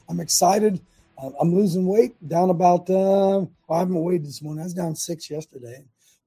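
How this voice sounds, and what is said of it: Raspy voice from a cold. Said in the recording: “I'm fighting a little bit of a cold today. Got a raspy voice”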